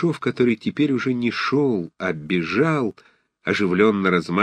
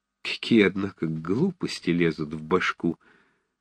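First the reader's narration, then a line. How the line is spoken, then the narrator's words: Embarrassed whisper. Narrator (Russian): прошептал он сконфуженно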